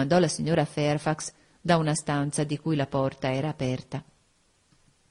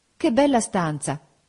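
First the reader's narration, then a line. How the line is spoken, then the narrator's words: Exclamation. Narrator (Italian): esclamai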